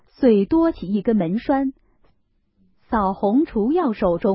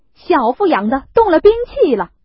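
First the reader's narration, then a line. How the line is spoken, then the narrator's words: Clamoring together. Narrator (Chinese): 这三个岂有不淘气的，一齐乱嚷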